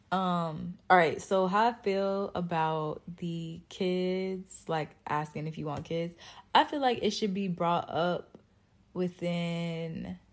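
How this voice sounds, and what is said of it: Sleepy, tired-sounding voice. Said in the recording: “my voice sounds sleepy because I'm sleepy and it's late”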